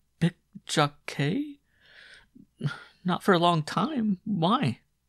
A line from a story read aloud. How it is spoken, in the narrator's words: The abrupt question seemed to transfix her, stammered